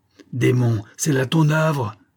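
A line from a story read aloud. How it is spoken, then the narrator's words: Captain exclaiming. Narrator (French): s'écria le capitaine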